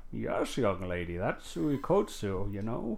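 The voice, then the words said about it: Put-on old man voice. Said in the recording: “I'll play the old man ... Let me get my old man voice.”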